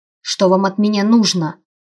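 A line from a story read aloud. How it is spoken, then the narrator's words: Snapping retort. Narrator (Russian): Огрызнулась я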